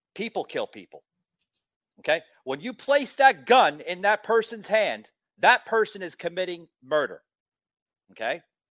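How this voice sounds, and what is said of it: New York accent. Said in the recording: “I'm originally from New York City, as you can probably hear in my voice.”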